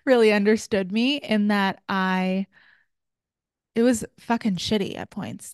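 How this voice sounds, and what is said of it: Choked-up, emotional voice. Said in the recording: “getting choked up?”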